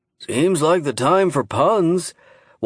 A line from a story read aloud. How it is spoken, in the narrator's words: Walter Byrd sighed